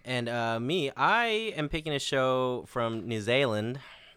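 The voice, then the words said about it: Put-on New Zealand accent. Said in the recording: “That's my New Zealand accent. I don't know if I nailed it or not.”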